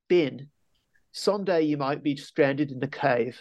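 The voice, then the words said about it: Poor put-on Australian accent. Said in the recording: “he has an Australian accent... My accent is terrible”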